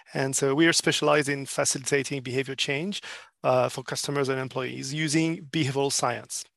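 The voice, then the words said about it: French accent. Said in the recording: “if you wonder where my accent is coming from ... I'm actually a French”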